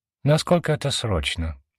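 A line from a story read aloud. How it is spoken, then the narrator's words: Man sighing. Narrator (Russian): вздохнул мужчина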